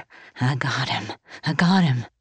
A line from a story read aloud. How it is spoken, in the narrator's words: whispering over and over